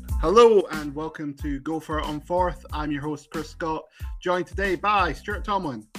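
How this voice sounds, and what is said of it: Congested voice from a cold. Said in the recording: “I have a cold. I feel terrible.”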